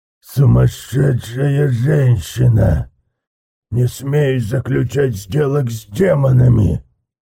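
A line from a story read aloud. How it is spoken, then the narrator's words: Growl. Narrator (Russian): прорычал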